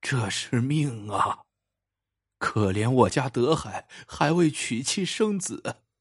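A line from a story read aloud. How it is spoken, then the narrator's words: Old woman's long lament. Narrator (Chinese): 于老夫人仰天长叹一声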